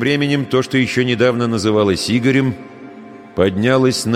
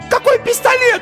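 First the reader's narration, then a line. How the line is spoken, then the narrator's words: Shrill squeal. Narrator (Russian): взвизгнула Ирина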